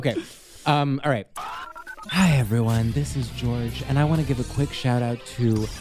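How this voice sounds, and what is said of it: Hoarse, sultry ASMR-style soft voice. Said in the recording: “I'm losing my voice a little bit, so I'm going to have to be really sultry and sort of ASMR in this shout out”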